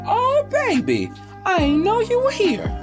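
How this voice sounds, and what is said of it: Imitated grandmother voice. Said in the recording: “grandma voice”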